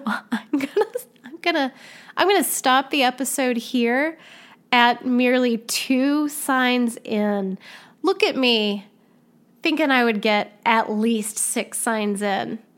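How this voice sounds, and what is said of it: Slightly strained, fading voice. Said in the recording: “I am losing my voice a little bit”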